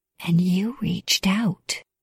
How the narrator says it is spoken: I whispered

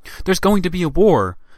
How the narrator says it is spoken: she exclaimed

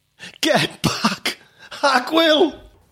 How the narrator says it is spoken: a fat gangster with a cigar stub permanently in his mouth, shouted

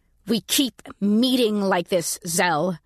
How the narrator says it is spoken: I said through gritted teeth

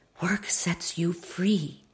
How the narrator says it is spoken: my mother whispered

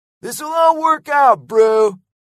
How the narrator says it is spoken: yelled Lego

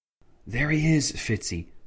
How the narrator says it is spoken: whispered Alistair Tancred

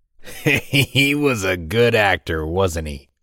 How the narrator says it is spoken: laughed the large man

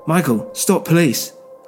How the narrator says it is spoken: I shouted

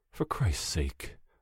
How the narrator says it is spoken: I'm muttering

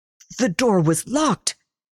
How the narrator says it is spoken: sputtered

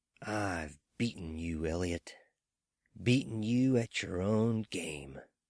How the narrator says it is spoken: whispered

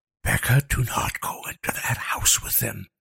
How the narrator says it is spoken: Liam hissed

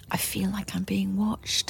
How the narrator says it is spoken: I said quietly to Richard

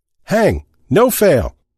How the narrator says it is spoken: someone shouted

